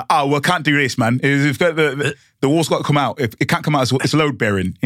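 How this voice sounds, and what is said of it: Weak put-on Cockney accent. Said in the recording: “who is this Cockney guy? Not a great accent”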